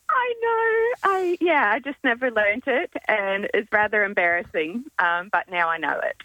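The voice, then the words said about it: Slight American accent. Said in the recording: “I detect a little accent ... I'm originally from the States, so I came to Australia when I was 15.”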